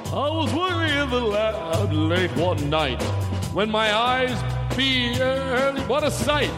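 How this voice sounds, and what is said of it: Overdone funny voice. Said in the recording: “I do a funny voice ... I'll overdo the funny voice.”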